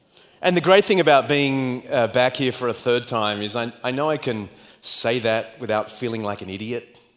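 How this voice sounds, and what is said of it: Australian accent. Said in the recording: “Australian speed ... my accent”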